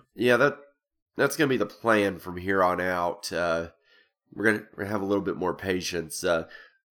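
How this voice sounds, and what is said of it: Sick-sounding voice. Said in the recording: “if you can probably hear it in my voice, I got really sick last week”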